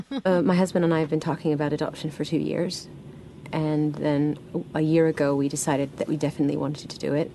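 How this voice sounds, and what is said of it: Odd, slightly British-sounding accent. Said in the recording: “sounds a little British, but she's not. ... what the hell is that accent?”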